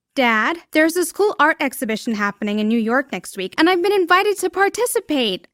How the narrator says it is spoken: I squealed while faking excitement

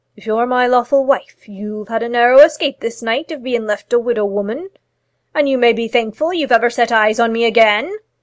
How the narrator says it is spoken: said the old man solemnly

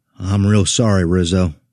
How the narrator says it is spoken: I said

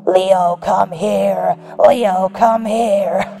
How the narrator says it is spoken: repeating in the same raspy tone

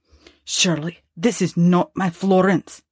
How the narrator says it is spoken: asked in a voice so stern and so unlike the loving tones that he was in the habit of hearing

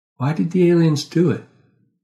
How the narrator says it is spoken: I sighed

